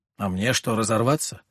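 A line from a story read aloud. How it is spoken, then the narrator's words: Mumbling. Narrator (Russian): пробормотал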